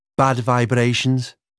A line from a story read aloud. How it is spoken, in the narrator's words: said Layla